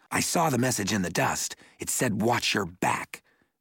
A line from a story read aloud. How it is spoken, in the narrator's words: replied hotly